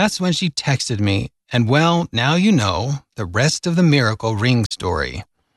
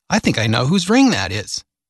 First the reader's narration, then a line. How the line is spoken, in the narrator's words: without hesitation, she exclaimed